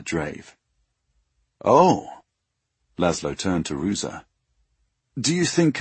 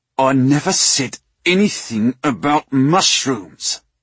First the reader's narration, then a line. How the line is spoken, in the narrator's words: Drave said through gritted teeth